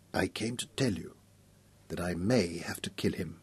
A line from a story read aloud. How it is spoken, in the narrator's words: Mech whispered